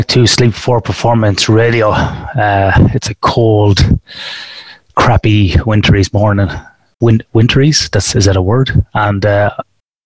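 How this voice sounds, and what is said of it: Congested, stuffy voice. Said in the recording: “I have a head cold, so apologies for that.”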